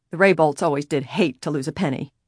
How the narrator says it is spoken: the manufacturer grunted

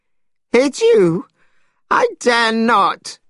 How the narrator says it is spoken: cried Monkey

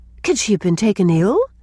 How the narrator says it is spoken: exclaimed Mrs

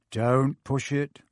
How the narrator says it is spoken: he muttered

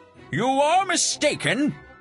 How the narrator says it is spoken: shouted Don Quixote

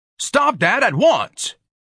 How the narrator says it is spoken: Ignatius bellowed

